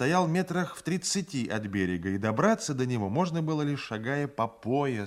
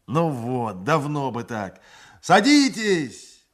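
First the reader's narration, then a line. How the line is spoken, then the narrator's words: Shouting. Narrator (Russian): закричал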